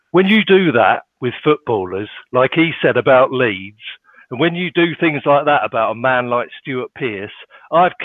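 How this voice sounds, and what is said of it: Put-on northern English accent impression. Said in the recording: “do an impersonation of the grumpy person ... I can't promise that the accent's going to be good, because it is supposed to be northern again”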